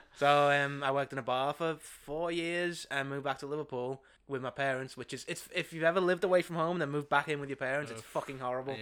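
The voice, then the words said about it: Liverpool (Scouse) accent. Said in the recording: “I moved back home to Liverpool ... they hear the accent.”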